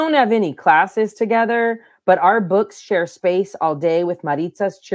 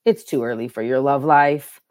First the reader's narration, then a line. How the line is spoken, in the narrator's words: grumble